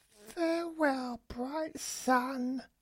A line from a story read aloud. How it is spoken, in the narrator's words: she cried